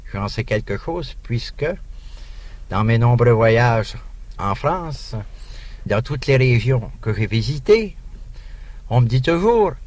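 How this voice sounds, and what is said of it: Canadian French accent. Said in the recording (French): “il y a un accent canadien d'une façon générale ... nous reconnaissons votre accent canadien”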